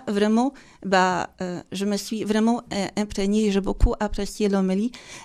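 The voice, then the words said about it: Slight Polish accent in French. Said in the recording (French): “ce bel accent, ce beau petit accent que vous avez? ... je suis polonaise. Je viens de Pologne”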